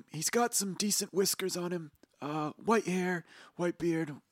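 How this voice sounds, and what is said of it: Cartoon character voice. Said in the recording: “Half the reason why I do this voice is”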